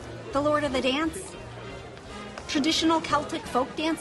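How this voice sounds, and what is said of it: Usual voice. Nothing is said of it.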